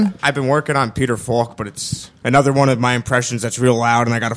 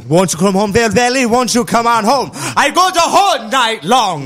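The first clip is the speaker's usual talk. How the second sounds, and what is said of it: Singing in a put-on Hasidic accent. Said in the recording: “singing a Wayne Newton in my car with a Hasidic accent”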